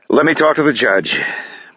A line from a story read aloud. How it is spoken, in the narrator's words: Bruce sighs